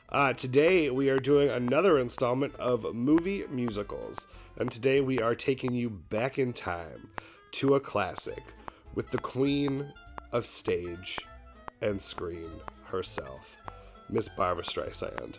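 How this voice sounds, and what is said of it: Husky, rougher voice. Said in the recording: “I sound like a very husky man, I am on the tail end of a cold ... I sound a little more brute than usual”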